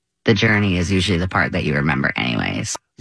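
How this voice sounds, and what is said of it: Vocal fry at phrase end. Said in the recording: “there's a lot of vocal fry at the end anyway”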